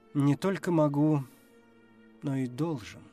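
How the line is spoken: Sad. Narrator (Russian): грустно сказал Уильямс 4

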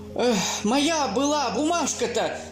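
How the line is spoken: Loud. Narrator (Russian): громко сказал Чудик

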